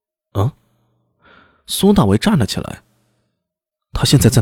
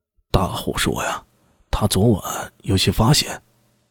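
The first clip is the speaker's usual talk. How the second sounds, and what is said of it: Quiet, hushed voice. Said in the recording (Chinese): “小声说道”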